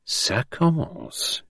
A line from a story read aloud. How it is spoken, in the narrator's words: he murmured